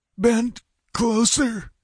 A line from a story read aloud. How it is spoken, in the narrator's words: gasped Topal